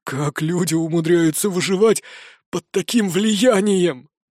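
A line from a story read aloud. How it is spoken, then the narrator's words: Hoarse rasp. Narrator (Russian): прохрипел 3-й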